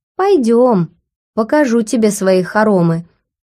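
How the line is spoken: Slightly mocking. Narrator (Russian): слегка насмешливо проговорил смарагд

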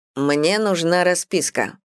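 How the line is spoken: Grim declaration. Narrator (Russian): мрачно заявляет

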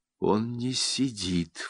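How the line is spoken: Sudden quiet. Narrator (Russian): вдруг тихо говорит Августа

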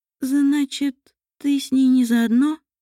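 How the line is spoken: Uncertain question. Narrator (Russian): неуверенно спросила Мариэль

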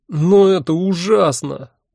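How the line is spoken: Near groan. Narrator (Russian): почти простонал я

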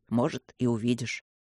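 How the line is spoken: Mumbled. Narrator (Russian): пробормотал Люк

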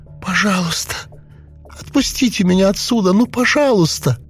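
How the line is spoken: Trembling pleading girl. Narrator (Russian): Ее пронзила дрожь, и девушка взмолилась

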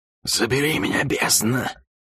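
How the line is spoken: Sharp, stunned exhale. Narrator (Russian): Резко и ошеломленно выдохнула она

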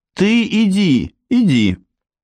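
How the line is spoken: Groaning. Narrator (Russian): простонала Мэй с койки

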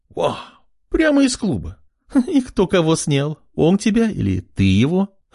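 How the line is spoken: Mocking laugh. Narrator (Russian): хохотнула блондинка слева

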